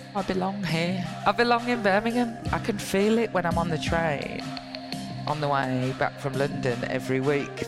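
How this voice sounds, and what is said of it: Birmingham (Brummie) English accent. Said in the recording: “proud Brummie MP with a Brummie accent”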